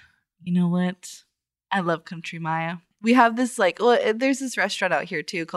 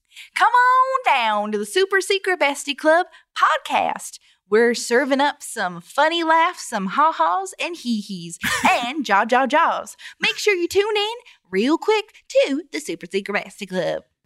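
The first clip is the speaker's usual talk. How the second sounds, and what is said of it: Put-on country accent. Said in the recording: “that accent, actually, when you go into Country Maya”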